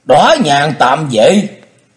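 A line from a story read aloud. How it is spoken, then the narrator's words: Sudden choked sobbing cry. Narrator (Vietnamese): Đột nhiên thân thể rung lên ngạn ngào kêu lên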